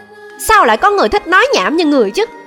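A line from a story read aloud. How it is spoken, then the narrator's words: Angry. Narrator (Vietnamese): Trầm Nhan giận dữ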